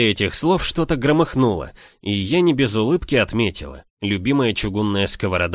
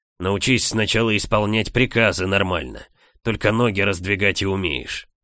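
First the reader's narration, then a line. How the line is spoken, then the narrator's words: Growled reply. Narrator (Russian): рыкнул в ответ Форум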